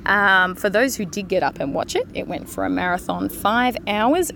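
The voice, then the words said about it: Slightly croaky voice. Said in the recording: “I'm sure you can hear it in my voice that it's a little bit croaky”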